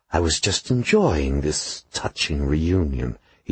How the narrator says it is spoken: he said in his silky hiss

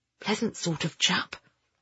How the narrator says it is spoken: Ben whispered

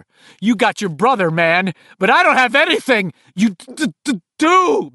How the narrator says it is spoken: Bill yelled back

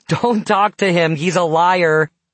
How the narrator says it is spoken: you shouted, laughing

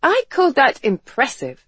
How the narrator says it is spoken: Garrett exclaimed, beaming with pride

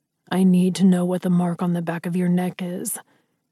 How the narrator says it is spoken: he growled

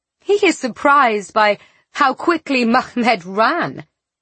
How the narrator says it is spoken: Larda laughed

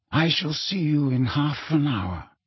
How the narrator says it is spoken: said Dumbledore quietly

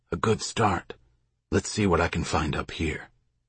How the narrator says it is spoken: Sam whispered

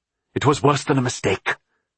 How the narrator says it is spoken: Philip said angrily

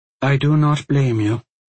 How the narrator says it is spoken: Ineva said again, calmly and evenly

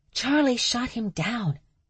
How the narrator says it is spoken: Stevie whispered, loudly

